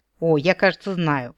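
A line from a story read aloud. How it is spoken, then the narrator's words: Grumbling. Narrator (Russian): проворчал Нол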